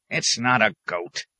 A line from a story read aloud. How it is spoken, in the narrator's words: the hermit said crossly